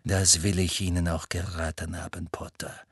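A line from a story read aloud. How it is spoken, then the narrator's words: Cold. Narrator (German): sagte Snape kalt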